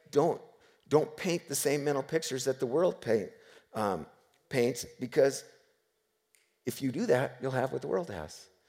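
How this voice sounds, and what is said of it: Slightly rough, strained voice. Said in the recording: “my voice is a little screwy”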